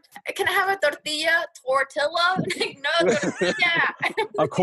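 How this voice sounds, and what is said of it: Usual voice. Nothing is said of it.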